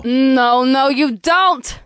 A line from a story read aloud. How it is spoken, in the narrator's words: Impulsa chuckled